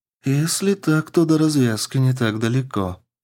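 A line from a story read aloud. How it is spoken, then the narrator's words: Sad, smiling. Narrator (Russian): произнесла Суккуба и грустно улыбнулась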